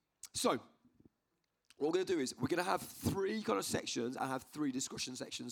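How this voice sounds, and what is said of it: Strained, hoarse voice. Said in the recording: “I'm losing my voice,”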